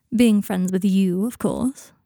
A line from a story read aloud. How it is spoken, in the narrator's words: he said sarcastically